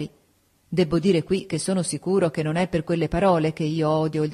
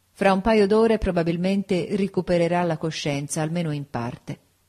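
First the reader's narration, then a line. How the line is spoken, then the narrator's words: Plain. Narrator (Italian): disse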